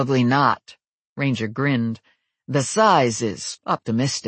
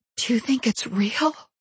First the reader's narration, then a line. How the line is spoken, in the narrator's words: I whispered